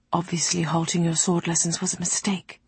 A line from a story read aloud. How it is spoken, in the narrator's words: she murmured to Sarai